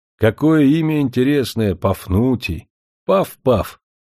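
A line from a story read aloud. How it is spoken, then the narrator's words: Mimicking, then laughing. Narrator (Russian): произнесла она точно так же, как Пафнутий в детстве, и рассмеялась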